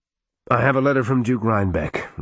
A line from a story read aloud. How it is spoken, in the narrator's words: Regan sighed